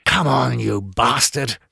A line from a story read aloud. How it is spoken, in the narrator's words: cursed under my breath